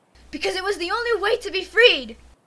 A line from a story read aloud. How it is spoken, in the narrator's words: She shouts